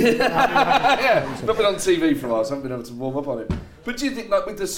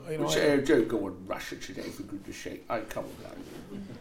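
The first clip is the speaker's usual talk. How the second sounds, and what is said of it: Imitates another person's voice. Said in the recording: “Not my best impression actually”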